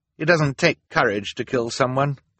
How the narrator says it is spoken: Klaus said

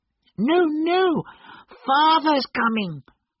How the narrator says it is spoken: cried the two young Cratchits

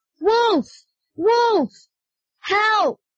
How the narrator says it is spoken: shouted

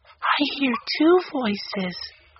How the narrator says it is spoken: Violet whispered

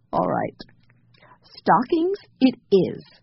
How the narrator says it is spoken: agreed Jessie, trying not to laugh

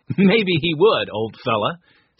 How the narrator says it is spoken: said Henry, laughing

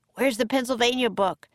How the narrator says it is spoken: Jack shouted

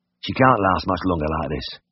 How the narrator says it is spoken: Dick grunted

